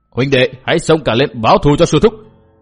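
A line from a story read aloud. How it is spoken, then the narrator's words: Angry group roar. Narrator (Vietnamese): Bọn cái bang đệ tử mắt thấy sư thúc bị đối phương đá chết đều giận dữ gầm lên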